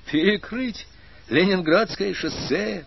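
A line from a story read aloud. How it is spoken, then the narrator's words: Almost cheerful horror, running. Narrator (Russian): Почти весело ужаснулся-таки он на бегу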